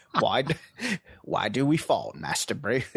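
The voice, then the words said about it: Imitates another person's voice, badly. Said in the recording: “your Michael Caine impression ... It's like the worst ... It's terrible.”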